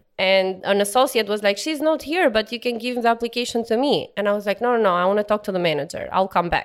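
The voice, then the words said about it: Thick non-native accent. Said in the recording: “like you can hear, I have a thick accent. This means I'm not from here”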